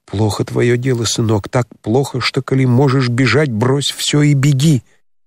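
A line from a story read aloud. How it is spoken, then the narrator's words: Hurried whisper into ear. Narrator (Russian): приблизив губы к самому уху его, прошептала торопливым шепотом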